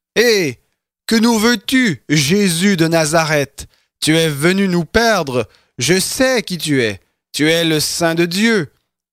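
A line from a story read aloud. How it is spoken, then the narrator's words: Possessed man's loud cry. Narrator (French): un homme qui avait un esprit de démon impur, et qui s'écria d'une voix forte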